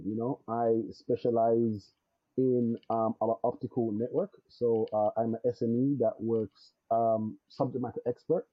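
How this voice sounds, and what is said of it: Slight home-country accent. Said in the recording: “I can still hear the twinge of your accent. It's still, the home accent is still there.”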